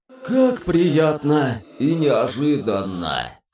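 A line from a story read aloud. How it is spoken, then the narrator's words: Embarrassed booming voice. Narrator (Russian): смущенно прогудел Лич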